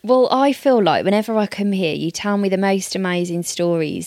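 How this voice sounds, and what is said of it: Melodic, song-like accent. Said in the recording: “I love your accent. I think it's just like a song.”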